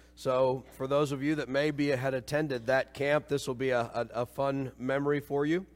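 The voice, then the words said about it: Hoarse, froggy voice. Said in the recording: “You can tell by my voice, I'm a little froggy today. It's actually, I think, worse now than it's been yet ... lost my voice”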